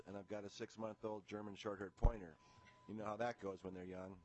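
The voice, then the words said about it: Sick, congested-sounding voice. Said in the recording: “I apologize for my voice. I've got a little cold,”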